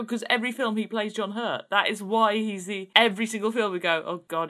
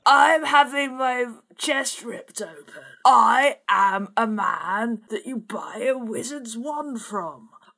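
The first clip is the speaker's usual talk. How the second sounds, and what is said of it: Imitates another person's voice. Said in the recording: “That is actually quite a good impression of John Hurt.”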